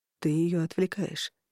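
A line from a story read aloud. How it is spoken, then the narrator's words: Gently remarked. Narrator (Russian): мягко заметил Корнелиус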